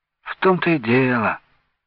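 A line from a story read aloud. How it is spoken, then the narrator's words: Sighing. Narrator (Russian): вздохнул Венька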